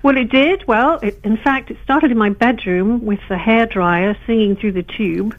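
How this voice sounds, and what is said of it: English accent. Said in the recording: “you sound very, very English for somebody who's born in Missouri ... my Midwest accent comes out sometimes”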